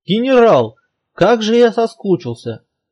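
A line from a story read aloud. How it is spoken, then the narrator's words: Joyful reply. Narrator (Russian): радостно отозвался мэр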